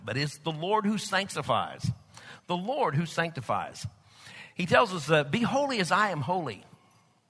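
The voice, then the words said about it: Oklahoma Texas accent. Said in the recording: “with my Okie Texas accent or Texas Okie accent”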